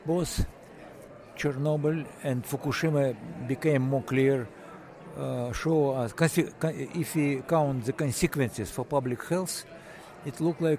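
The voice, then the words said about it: Thick foreign accent. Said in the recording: “has a rather thick accent”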